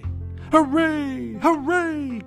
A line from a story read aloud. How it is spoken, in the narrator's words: cried the funny little clown, and all the dolls and toys